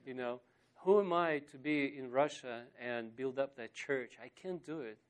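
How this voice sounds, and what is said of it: Speaks with a foreign accent. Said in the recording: “a guy with some strange accent”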